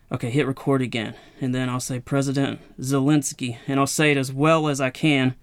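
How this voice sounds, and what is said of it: Southern US accent. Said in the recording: “I'm from the South and my, my accent probably adds a little bit to it all as well.”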